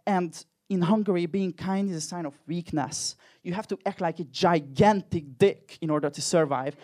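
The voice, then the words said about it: Hungarian accent. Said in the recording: “I'm personally from Hungary, as you can probably tell from my accent.”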